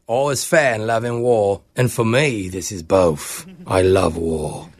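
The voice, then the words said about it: Make-believe accent of a prank character. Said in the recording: “a make-believe accent ... a phone tap character that I play on the radio. His name is Clover.”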